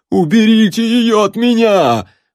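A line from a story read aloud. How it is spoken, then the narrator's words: Terrified screaming. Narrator (Russian): в ужасе завопил мужичок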